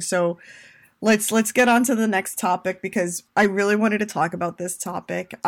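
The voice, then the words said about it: Tired, fading voice. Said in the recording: “I'm slightly exhausted ... As you can hear, my voice is going”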